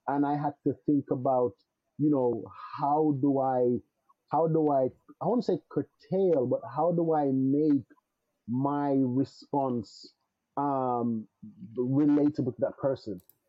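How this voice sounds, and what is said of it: Jamaican accent. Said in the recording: “being that I was born in another country, my accent is still there. ... other Jamaicans”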